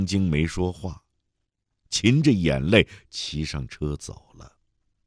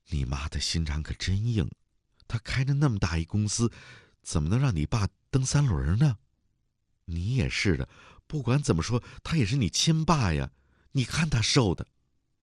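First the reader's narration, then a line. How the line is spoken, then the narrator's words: Girl, deeply sighing. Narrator (Chinese): 女同学非常感叹地说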